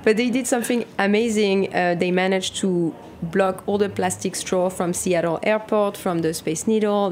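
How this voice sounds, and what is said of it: French-accented English. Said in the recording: “Sounds so much better in French. ... all of our listeners who love your accent.”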